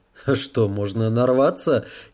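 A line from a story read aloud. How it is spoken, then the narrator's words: Giggling. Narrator (Russian): хихикнул Кевилгар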